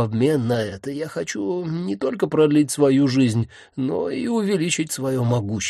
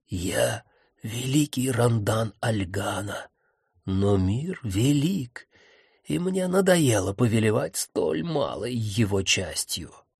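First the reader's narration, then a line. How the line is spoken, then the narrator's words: Dramatic whisper. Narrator (Russian): драматическим шепотом сообщил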